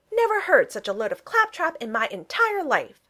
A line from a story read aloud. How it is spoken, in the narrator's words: he exclaimed in outrage